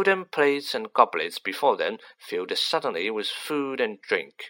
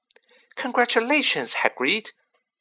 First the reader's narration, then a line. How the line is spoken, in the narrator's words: squealed